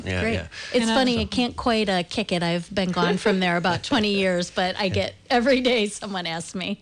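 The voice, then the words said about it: Midwestern Ohio accent. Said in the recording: “that accent, you're either from Wisconsin or Illinois or Ohio. ... You got it, Ohio. Northwestern Ohio.”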